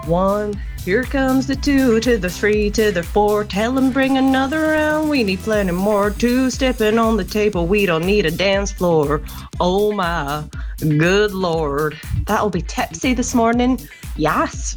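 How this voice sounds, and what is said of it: Sings in a put-on accent. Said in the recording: “brilliant singing, including an accent”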